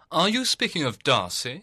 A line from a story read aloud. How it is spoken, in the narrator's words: cried her brother